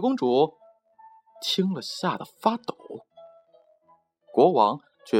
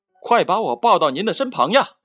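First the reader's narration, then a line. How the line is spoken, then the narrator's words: Loud call. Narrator (Chinese): 青蛙大声叫道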